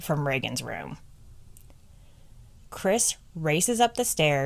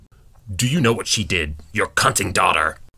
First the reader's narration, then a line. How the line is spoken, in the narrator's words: bellows out in fear